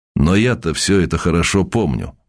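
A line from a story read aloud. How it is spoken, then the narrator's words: Plain. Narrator (Russian): сказал моряк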